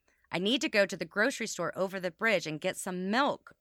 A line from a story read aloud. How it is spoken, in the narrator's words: stated again, more sternly